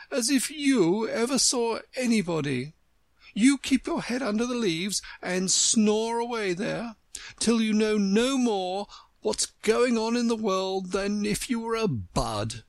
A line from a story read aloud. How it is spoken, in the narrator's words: cried the Tiger-lily